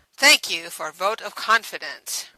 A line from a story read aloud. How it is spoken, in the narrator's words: Radic responded dryly